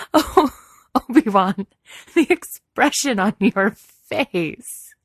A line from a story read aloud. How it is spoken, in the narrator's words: She gasped around bursts of laughter